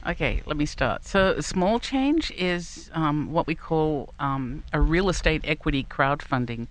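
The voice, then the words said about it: Australian accent. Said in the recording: “she has a different accent, as everyone will hear in a moment ... It's a down under Yinzer accent.”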